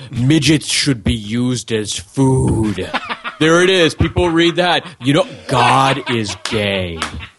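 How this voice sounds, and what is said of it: Imitates another person's voice. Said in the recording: “great Jesse Ventura impression”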